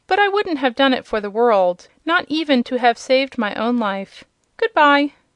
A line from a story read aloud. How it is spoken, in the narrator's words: said Rob, laughing